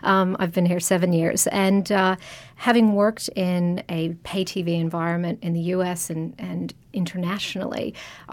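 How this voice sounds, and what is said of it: Non-Australian foreign accent. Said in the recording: “my accent conveys I haven't been here very long either”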